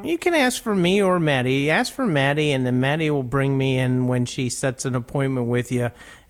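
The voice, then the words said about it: Pittsburgh accent. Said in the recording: “That's my Pittsburgh accent coming out”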